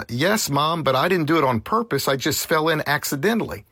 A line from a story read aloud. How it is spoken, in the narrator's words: he quickly confessed